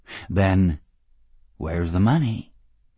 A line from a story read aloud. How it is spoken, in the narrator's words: He asked calmly